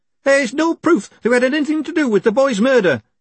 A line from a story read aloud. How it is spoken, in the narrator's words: snapped Horsefry